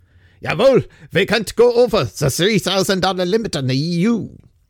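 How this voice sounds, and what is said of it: Clumsy mishmash put-on German accent. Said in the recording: “Probably the wrong accent. I'm not very good with my accents... That turned out some sort of mishmash.”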